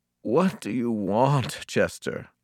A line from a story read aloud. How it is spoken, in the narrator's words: mumbled without opening my eyes